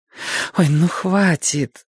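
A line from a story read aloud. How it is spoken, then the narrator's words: Weary. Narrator (Russian): устало сказала она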